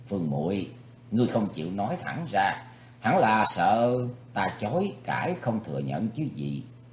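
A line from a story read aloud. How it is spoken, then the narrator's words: Frowning smile. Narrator (Vietnamese): Thủy Tướng Hạo nhíu mày mỉm cười nói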